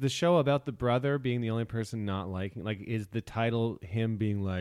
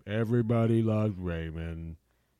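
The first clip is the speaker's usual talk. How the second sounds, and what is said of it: Slow imitation of another person's voice. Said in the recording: “Bad impression. ... Brad Garrett sounds like if a coffee maker came to life ... Very slow.”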